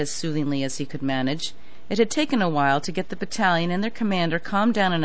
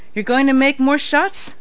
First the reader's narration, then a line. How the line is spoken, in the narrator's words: LeBlanc snapped